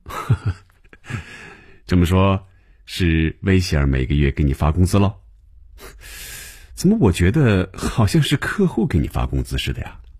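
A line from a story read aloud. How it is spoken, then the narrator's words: Laughing. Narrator (Chinese): 红军便笑了起来，说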